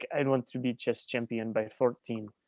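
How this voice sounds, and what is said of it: Put-on Russian accent. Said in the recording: “Pretty good Russian accent”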